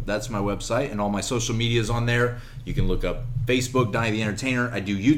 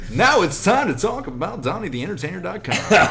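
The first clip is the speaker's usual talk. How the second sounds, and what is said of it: Announcer-style radio voice. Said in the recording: “this beautifully trained radio voice”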